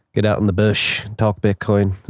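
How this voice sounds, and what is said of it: Poor put-on Australian accent. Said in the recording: “Is that a good Australian accent? I don't think so... my terrible accent”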